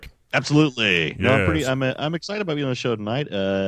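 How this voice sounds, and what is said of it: Usual voice. Nothing is said of it.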